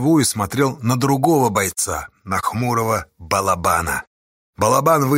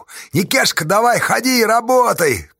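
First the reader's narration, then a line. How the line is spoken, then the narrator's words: Shout. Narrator (Russian): крикнула Асташа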